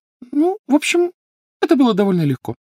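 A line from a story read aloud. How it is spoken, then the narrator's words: Thin high voice. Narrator (Russian): тонким голосом сообщила Гермиона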